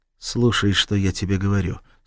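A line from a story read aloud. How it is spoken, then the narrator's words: Calm. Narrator (Russian): спокойно произнес Махмуд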